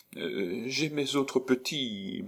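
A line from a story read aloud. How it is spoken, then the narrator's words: Apologetic stammering. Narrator (French): balbutia Madame Noblet pour s'excuser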